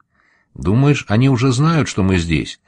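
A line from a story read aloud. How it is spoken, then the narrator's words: Plain. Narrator (Russian): спросила Пима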